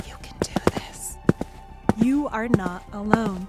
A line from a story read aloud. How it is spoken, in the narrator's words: Maybe whispering